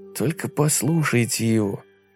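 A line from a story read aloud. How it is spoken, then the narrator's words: Quiet. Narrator (Russian): тихо сказал Фил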